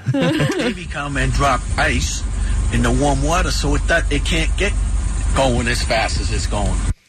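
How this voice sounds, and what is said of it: Northern US regional accent. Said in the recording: “I love his accent, too... Oh, he's clearly from up north.”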